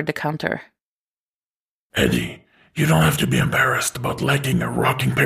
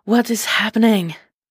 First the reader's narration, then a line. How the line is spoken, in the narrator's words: panted